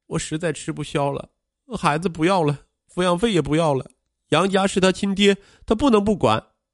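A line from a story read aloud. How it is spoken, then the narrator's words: Sorrowful weeping. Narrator (Chinese): 愁容满面的王倩继续哭哭啼啼的说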